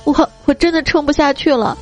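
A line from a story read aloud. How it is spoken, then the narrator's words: Crying, muffled against chest. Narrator (Chinese): 佳期呢是头埋到我的胸口，哭着跟我说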